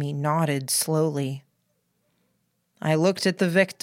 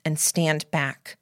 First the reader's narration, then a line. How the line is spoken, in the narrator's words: I said very firmly